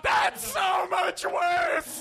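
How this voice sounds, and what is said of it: Shouting. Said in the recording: “I'm yelling into the mic”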